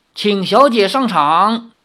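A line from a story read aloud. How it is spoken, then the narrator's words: Butler, loud voice. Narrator (Chinese): 管家林中高声说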